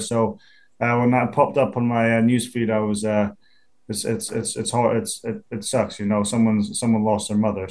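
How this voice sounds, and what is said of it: Non-American accent, slight American twang. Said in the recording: “One thing you haven't lost is that accent, though... I do say things with a little kind of American twang to it”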